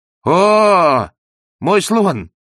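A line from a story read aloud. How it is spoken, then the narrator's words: Defiant shout. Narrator (Russian): вызывающе крикнул берлага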